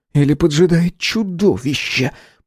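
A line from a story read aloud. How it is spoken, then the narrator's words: Hiss. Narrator (Russian): прошипел Эдди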